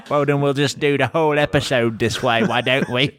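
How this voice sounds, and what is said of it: Unconvincing put-on British accent. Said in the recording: “our British accent ... I don't know what accent you're doing ... thinks British people talk like I don't know what.”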